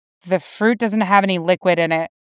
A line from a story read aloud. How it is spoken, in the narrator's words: Jason muttered